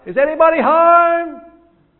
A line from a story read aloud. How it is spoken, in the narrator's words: you yell out